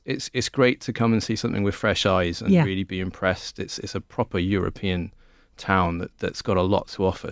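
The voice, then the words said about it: South Wales accent. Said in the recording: “as you can tell from my accent, it's from South Wales”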